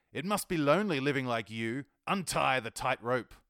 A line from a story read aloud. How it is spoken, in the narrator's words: He howls